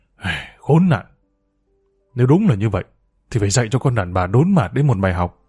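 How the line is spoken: Muttered cursing. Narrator (Vietnamese): Toàn vừa lầm bầm chửi thề

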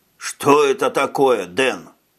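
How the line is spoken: Hoarse rasp. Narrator (Russian): прохрипел долговязый солдатик

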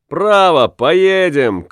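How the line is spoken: Shout. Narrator (Russian): крикнул Уллиншпигель

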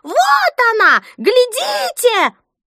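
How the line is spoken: Shrill shriek, toothless old woman. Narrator (Russian): одна беззубая, сморщенная, словно печеное яблоко старуха, пронзительно завизжала

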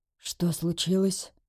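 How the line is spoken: Quiet question, father. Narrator (Russian): тихо спросил отец

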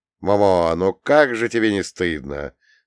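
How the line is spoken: Stern, then softening. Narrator (Russian): строго сказал я, но вмиг подобрел

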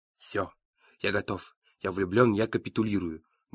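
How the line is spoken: Mumbling. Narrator (Russian): бормочет Зука

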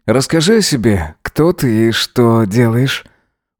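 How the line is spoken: Charming purr. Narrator (Russian): Мурлыкнул тот ему, включив обаяние на полную катушку

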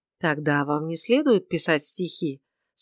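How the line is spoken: Calm remark. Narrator (Russian): спокойно заметила Тельма

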